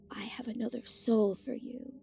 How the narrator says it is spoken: whispered

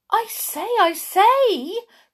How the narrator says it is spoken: cried Dame Shoe

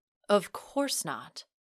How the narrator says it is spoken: Franco replied coolly

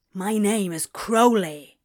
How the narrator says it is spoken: he growled

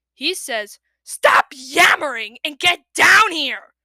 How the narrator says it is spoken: Kestrel roared

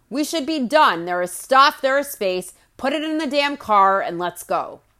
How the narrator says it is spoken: she yells

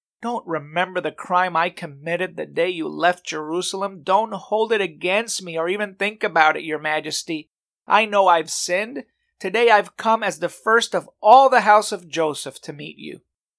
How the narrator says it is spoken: He pleaded with the king

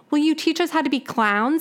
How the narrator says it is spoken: Alex begged

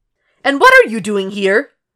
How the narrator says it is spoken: Alana snaps towards him, red in the face and spiraling closer to an emotional breakdown than Will had anticipated

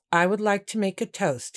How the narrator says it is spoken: he said again

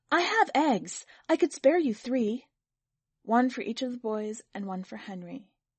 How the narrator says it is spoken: Another woman said eagerly

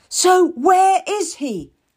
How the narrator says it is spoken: she cries, so loudly that everyone in the hall can hear

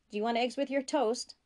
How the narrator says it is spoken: he called out

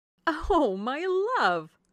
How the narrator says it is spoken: cried Mrs

